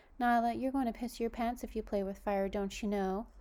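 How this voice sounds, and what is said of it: Sweet, put-on nice voice. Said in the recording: “put on her nicest voice.”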